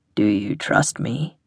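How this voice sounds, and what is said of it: Deep male voice. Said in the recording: “said the deep voice”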